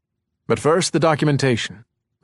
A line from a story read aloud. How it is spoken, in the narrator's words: Rhyme said